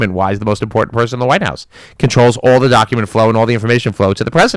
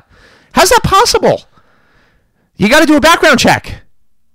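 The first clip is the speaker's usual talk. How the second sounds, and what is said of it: Raised, loud voice. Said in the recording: “raising my voice”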